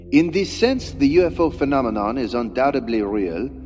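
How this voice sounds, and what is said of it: Put-on French accent. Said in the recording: “you have a better French accent than I do ... I'll give it a little Jacques here”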